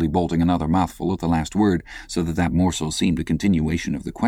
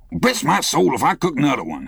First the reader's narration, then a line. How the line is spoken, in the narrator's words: he growled angrily